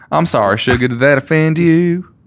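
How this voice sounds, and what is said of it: Put-on country Southern accent. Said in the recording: “changing your accent 12 times ... because he's country, I decided I was going to do an accent”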